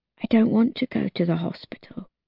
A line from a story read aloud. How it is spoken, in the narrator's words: I whisper into Michael's ear